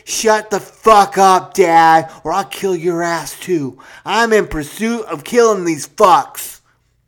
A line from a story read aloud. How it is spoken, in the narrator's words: Scotty screamed